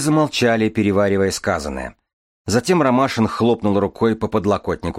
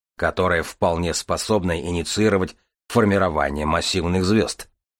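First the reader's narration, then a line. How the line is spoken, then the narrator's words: Grumbling mutter. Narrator (Russian): буркнул Железовский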